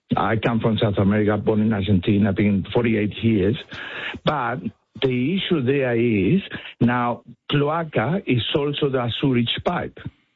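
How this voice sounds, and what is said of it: Strong Spanish accent. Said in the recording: “I have a very strong Spanish accent.”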